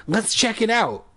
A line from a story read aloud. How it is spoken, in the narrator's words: I cried